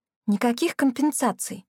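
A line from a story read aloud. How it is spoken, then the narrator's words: Quiet voice. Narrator (Russian): тихо проговорила Мия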